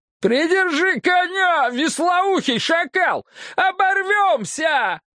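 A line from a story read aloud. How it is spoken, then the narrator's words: Yelling. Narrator (Russian): заорал преподобный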